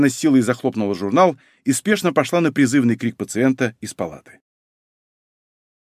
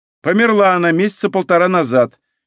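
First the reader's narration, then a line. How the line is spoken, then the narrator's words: Dry answer. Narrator (Russian): сухо ответила женщина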